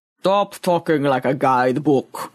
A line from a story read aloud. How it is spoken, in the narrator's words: rumbled Boaz